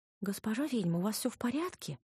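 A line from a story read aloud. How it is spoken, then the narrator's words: Timid girl asking. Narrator (Russian): робко поинтересовалась белобрысая помощница кухарки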